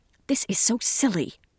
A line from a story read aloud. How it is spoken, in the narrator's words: Sally would whisper